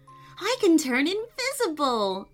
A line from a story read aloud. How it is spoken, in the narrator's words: Amelia laughed